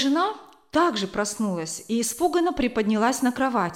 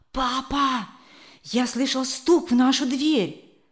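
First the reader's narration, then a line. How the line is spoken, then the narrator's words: Child's whisper. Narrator (Russian): прошептал малыш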